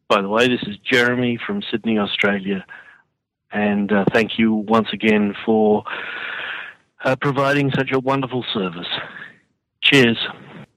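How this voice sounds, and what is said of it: Pleasant Australian accent. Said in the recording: “a wonderful accent that we enjoy listening to”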